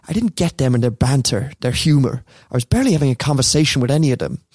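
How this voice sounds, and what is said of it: Put-on Irish accent. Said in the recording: “Sorry about the accent again... That wasn't bad... probably the number one we've had so far... I don't know if it's Cork, though”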